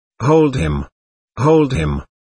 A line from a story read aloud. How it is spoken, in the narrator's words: he cried